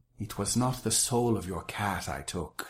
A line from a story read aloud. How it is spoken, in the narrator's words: she said